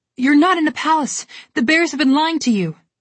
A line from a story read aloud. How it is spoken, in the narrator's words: Alex shouted back at her